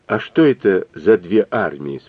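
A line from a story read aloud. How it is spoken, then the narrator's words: Plain. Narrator (Russian): спросила Люся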